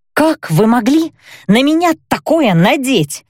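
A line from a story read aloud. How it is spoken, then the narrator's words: Hissing. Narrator (Russian): зашипела я на Наэллу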